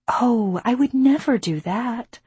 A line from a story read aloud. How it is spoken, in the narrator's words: I said sweetly